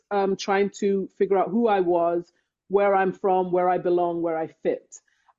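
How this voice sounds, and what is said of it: English accent. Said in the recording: “I was born in England. I grew up in England. ... Love your ... accent.”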